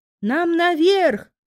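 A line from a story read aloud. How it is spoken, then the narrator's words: Shout. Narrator (Russian): крикнула Кайдену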